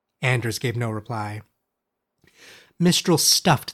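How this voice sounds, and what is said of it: Usual voice. Nothing is said of it.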